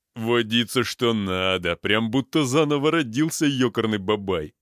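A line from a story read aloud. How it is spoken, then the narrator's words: Chuckling big man. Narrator (Russian): хохотнул здоровяк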